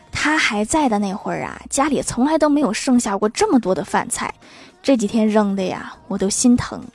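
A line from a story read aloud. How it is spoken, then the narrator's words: Mother sighing. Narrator (Chinese): 老妈叹了一口气，继续说道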